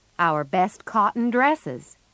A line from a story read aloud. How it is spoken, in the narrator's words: said Joe